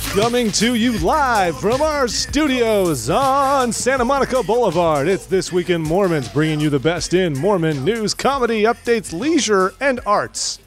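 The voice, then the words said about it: Exaggerated radio announcer voice. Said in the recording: “That voice. What is that voice? ... That's my augmented radio voice”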